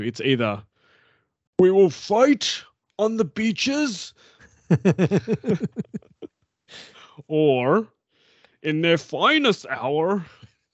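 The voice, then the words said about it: Imitated English accent voice. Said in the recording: “put on a voice... I've got to do a Churchill voice... Oh, you're going to do an English accent.”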